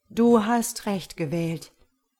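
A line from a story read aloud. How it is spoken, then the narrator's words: Plain divine voice. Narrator (German): sagte Gott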